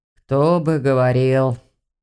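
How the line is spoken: Sighed. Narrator (Russian): вздохнул куратор

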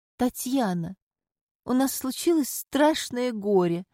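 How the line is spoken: Moaning. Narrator (Russian): простонала Соня

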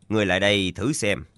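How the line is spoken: Smiling. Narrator (Vietnamese): Tạ Yên Khách mỉm cười nói

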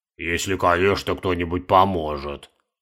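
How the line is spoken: Mumbled. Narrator (Russian): промямлил Каспар

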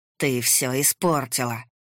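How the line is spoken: Through clenched teeth. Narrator (Russian): процедил Кирилл Степанович

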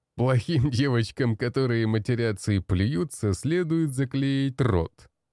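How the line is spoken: Laughing young man. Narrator (Russian): рассмеялся худой парень в кожаной куртке

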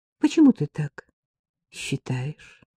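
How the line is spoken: Quiet question. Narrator (Russian): спросила я тихо

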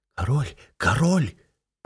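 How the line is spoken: Crowd whispers. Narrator (Russian): пронеслись шепотки

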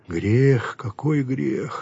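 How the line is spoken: Reproachful with a sigh. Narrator (Russian): сказал укоризненно и вздохнул

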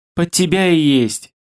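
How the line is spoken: Giggle. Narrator (Russian): хихикнула напарница

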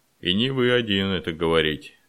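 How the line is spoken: Innkeeper's chuckle. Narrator (Russian): хохотнул трактирщик

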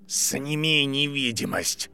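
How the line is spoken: Growl. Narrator (Russian): прорычал Барри

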